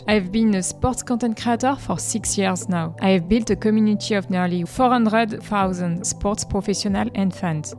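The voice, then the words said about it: French accent. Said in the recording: “As you can hear from my accent, I'm French.”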